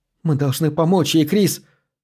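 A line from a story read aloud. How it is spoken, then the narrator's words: Exclaiming. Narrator (Russian): воскликнула Джессика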